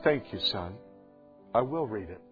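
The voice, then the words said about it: Quiet little voice. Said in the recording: “In this quiet little voice,”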